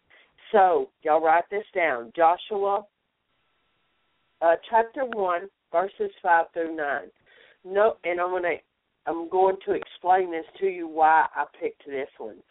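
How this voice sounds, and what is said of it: Strained, unusual-sounding voice. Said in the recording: “I'm sorry, y'all, my voice is so crazy today”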